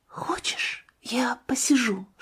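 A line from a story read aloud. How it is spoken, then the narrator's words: Whisper. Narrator (Russian): шептала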